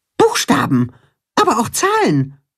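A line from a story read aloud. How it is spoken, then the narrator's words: Calling out. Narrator (German): ruft der Maulwurf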